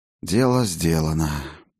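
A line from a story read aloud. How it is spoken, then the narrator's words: Breathed out. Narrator (Russian): выдохнул Фиделис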